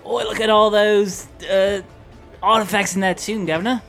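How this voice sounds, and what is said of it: Put-on British accent. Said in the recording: “Let's hear your British accent. ... That's really good.”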